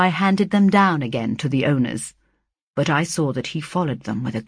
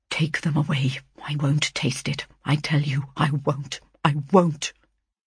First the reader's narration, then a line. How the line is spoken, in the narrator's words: muttering